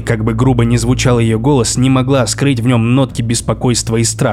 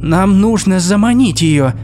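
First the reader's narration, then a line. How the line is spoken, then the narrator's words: Exclaimed. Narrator (Russian): воскликнула Ангрбода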